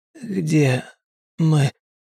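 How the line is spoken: Hoarse rasp. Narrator (Russian): прохрипел Кросс

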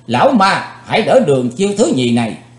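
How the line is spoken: Shouted. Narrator (Vietnamese): tiếng quát, Chí Tôn

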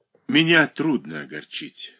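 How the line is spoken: Calm. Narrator (Russian): спокойно сказала Катерина Александровна

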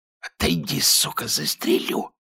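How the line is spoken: Hissed. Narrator (Russian): прошипел лейтенант

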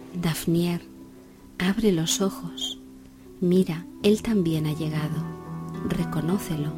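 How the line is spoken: Moon's whisper. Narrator (Spanish): la luna le susurró a su corazón

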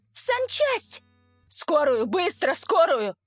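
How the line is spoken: Frantic yelling. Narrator (Russian): Я орал, как потерпевший

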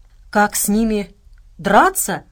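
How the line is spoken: Asking back, laughing. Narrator (Russian): переспросил Кузу и, видимо, по-своему расхохотался

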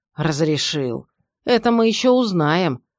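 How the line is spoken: Grumbling mutter. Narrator (Russian): пробурчал жандарм

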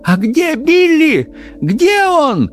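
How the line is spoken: Frantic mother shouting. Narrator (Russian): закричала мать, едва не теряя рассудок

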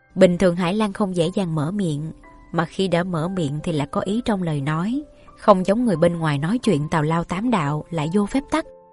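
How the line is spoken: Faint smile, slightly comforted. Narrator (Vietnamese): Như Ý cười nhạt, hơi có chút an ủi

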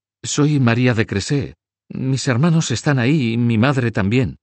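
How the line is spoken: Young girl's hesitant reply. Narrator (Spanish): respondió la jovencita con voz titubeante

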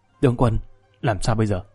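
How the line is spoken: Whispered question. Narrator (Vietnamese): Hồ Bất Quy thì thào hỏi khẽ

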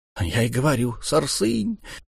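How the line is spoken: Muttered. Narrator (Russian): пробормотал президент

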